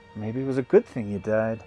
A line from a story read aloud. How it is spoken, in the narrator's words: Dustin muttered